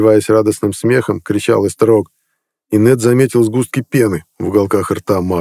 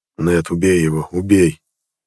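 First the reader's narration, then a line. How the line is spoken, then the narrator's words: Hoarse rasp. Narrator (Russian): прохрипел Харалд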